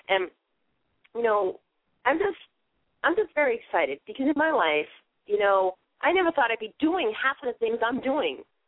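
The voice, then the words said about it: Authentic Boston accent. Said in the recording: “Yes, it's an authentic Boston accent. It's not fake. ... I talk funny”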